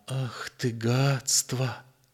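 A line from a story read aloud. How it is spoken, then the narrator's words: Quiet repetition. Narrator (Russian): тихо повторил он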